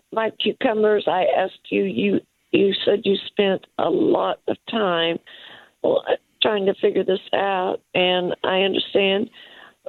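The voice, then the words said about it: Hoarse voice. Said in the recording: “I'm a little hoarse this morning”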